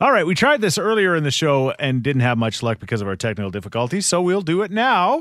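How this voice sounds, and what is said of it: Usual voice. Nothing is said of it.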